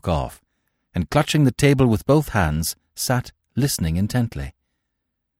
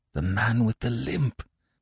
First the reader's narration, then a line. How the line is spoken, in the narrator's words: I said hoarsely